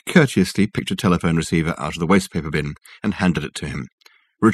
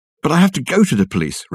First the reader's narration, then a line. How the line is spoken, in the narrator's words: exclaimed